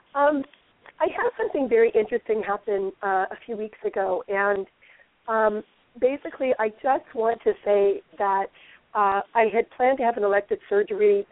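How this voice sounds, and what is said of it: Hoarse, weakened voice. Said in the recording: “apologize for my voice. I've had a little bout of laryngitis ... I actually have some voice today”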